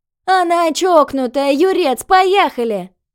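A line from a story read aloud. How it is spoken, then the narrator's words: Shout from above. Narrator (Russian): Крикнула сверху Люська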